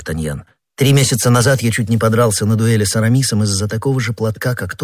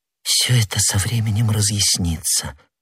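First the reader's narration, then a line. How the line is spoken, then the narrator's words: Whispered. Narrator (Russian): прошептала молодая женщина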